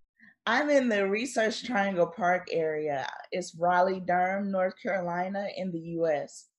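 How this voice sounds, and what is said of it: Slight North Carolina American accent. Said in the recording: “North Carolina. I can hear the accent a little bit.”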